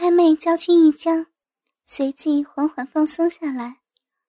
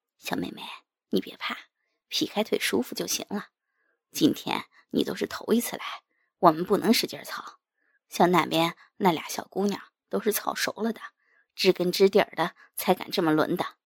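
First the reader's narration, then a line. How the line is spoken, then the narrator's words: Gentle soothing. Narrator (Chinese): 唐小虎不由柔声安慰道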